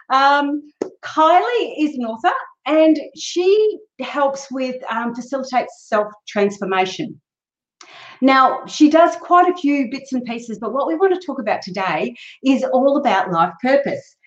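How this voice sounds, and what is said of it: Australian accent. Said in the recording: “she's another Australian ... I hope you enjoy our accent”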